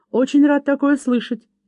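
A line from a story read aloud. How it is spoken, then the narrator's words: Cheerful reply. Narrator (Russian): весело отозвался Лаки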